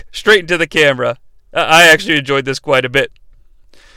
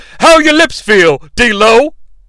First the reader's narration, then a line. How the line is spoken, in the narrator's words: Shane yells upon impact